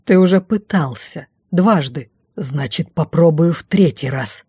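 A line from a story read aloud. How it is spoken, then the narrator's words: Through gritted teeth. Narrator (Russian): Процедил маг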